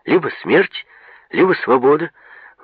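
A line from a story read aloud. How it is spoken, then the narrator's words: Excited telling. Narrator (Russian): взволнованно рассказывал Манойло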